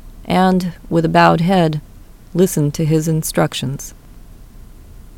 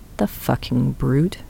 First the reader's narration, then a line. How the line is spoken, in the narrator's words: under his breath